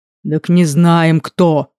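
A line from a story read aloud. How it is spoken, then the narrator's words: Deep booming rumble. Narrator (Russian): прогудел полуорк-полутролль Эскар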